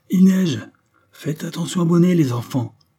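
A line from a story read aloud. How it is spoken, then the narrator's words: Bearded man exclaiming. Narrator (French): s'écria le barbu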